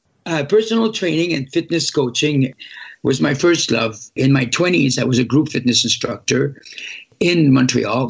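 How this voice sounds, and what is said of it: French Quebecois accent. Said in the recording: “I cannot shake the accent. I still speak funny after almost 20 years ... the French Quebecer talk to them”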